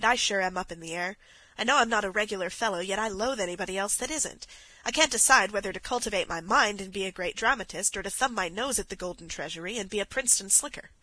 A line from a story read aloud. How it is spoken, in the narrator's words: sighed